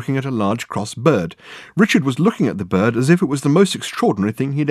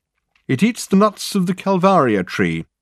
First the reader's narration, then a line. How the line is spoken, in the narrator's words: called out Reg to Richard